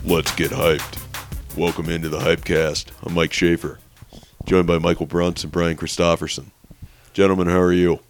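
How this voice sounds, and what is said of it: Deep, hoarse sore-throat voice. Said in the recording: “That's just how my voice sounds now ... sore throat ... Did you sing a little baritone?”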